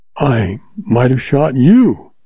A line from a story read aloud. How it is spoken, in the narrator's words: she exclaimed